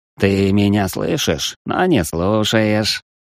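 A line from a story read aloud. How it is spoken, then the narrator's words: Through gritted teeth. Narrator (Russian): процедил незваный гость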